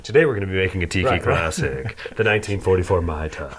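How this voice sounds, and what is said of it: Soothing silky smooth narrator voice. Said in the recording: “great impression ... his narration voice is very... ... It's very, like, you know, spa-like. ... Oh, it's very spa, silky smooth. ... you sound just like him”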